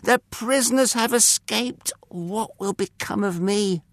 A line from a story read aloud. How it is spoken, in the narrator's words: he cried